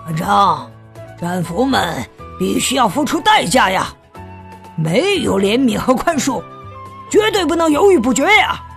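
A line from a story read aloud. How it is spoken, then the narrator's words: Muttering. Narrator (Chinese): 但鹰眼咕哝起来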